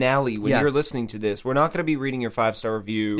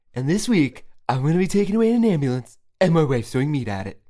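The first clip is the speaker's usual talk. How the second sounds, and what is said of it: Imitates another person's voice. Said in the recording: “my new Casey Kasem impression.”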